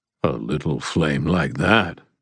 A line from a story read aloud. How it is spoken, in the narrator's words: rumbled the Jotun